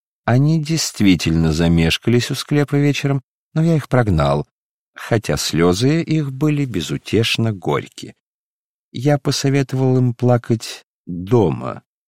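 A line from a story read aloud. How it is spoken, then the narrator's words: Laughing, pleased with joke. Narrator (Russian): рассмеялся, считая, что удачно сострил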